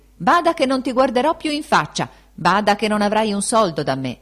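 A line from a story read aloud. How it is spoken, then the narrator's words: Shouted. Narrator (Italian): gridandogli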